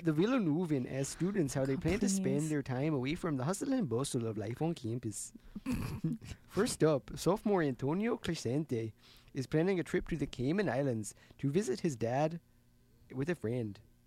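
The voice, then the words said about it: Minnesota accent. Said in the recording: “your little Minnesota accent”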